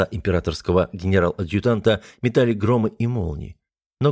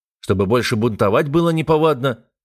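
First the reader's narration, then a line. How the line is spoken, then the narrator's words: Snapping retort. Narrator (Russian): огрызнулся я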